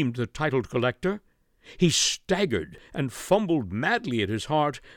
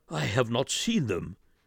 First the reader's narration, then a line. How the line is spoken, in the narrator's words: whispered